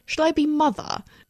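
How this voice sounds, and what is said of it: Fake English accent. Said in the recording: “I said it in a fake English accent.”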